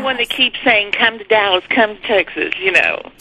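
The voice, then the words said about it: Texan twang accent. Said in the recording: “your cute twang”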